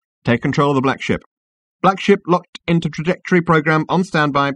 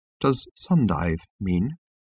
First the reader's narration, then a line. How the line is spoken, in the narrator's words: said Trillian in a small, quiet voice